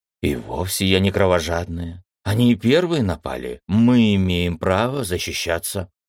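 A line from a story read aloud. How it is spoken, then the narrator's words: Girl grumbling. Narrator (Russian): проворчала девочка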